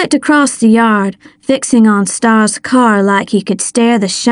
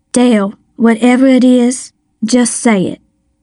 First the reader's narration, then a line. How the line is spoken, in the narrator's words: Miss Rose said, her voice gentler now